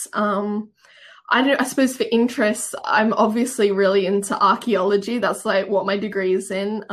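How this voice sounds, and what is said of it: Australian accent. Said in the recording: “I am obviously from Australia, if you can tell from my accent.”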